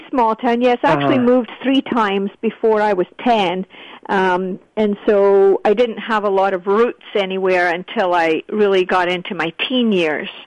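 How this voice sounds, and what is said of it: Scottish accent. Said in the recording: “you still have a delightful Scottish accent”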